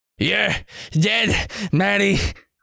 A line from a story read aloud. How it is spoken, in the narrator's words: Paul shouts between pants, his face red with exertion